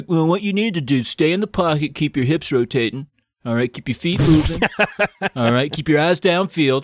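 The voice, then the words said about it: Impression of Uncle Rico, football-coach voice. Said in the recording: “Were you doing Napoleon Dynamite there for a second? ... Uncle Rico? ... I channeled a little bit of Rico on that. ... talking like a quarterback coach”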